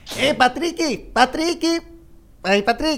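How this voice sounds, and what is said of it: SpongeBob cartoon voice impression. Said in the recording (Portuguese): “imitação do Monark, do ah, Bob Esponja?”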